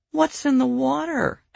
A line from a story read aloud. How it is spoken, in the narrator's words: Eleanor asked in a mournful voice